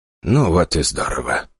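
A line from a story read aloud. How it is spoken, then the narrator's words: Speaking, then sighing. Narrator (Russian): проговорил Альберт Эдгарович и вздохнул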